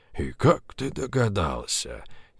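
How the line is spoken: Quiet laugh. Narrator (Russian): Тихо засмеялся Поляковский

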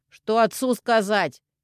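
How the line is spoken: Shouted after her. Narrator (Russian): крикнул ей в спину Пашка

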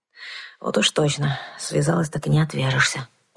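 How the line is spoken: Grumbling. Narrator (Russian): проворчала

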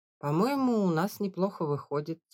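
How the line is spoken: Calm reply. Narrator (Russian): спокойно ответил отец

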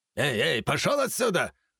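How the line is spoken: Angry shout. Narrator (Russian): зло выкрикнул наместник

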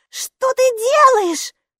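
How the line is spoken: Sharp cry. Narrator (Russian): вскрикнула Майки

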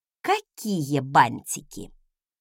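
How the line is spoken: Menacing, through teeth. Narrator (Russian): угрожающе процедила я

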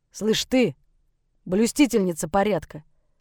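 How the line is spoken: Bark. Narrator (Russian): Рявкнул Егор

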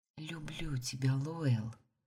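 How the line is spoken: Whispered. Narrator (Russian): прошептала я

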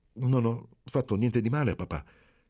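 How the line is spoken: Stammered. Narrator (Italian): balbettò Marcello

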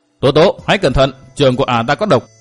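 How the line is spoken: Loud warning shout. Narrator (Vietnamese): huyết đổ nhân ma hét to

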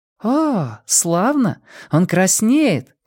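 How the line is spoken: Delighted exclamation. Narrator (Russian): воскликнула Женя

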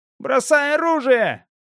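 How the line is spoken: Shout. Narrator (Russian): крикнул Чан

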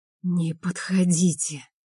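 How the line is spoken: Hoarse. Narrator (Russian): сипло говорю

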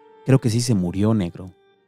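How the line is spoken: Dark voice. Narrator (Spanish): el chacal con su voz oscura dijo

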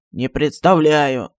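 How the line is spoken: Gloomy answer. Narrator (Russian): мрачно ответил Джин

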